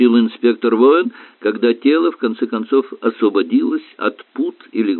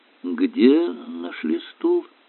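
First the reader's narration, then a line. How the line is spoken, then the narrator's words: Thoughtful question. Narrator (Russian): задумчиво переспросил Эллери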